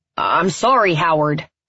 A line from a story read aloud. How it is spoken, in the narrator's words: Theo shouts at the door